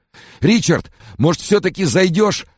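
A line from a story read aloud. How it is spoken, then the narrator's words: Timid babbling. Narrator (Russian): пролепетал Фрэнсис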